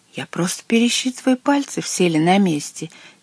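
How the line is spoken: Quiet water spirit. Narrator (Russian): тихо сказал водяной

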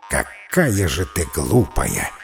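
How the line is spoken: Plain. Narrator (Russian): говорит джин

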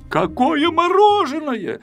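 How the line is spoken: Shout. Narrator (Russian): закричал Пилюлькин

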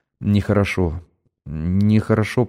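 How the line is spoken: Muttered. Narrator (Russian): пробормотал

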